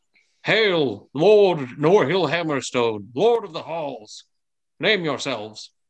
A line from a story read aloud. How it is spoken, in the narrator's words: bellows out and says